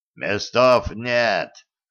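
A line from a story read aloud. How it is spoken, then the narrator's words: Rough hoarse rasp. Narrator (Russian): грубо просипел один из охранников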